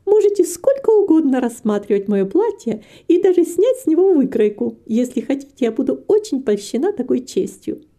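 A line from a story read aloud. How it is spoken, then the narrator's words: Cheerful continuation. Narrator (Russian): продолжала Китти, весело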